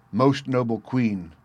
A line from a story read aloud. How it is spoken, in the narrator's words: answered